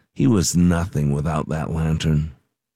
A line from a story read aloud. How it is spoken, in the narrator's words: talked under their breath and said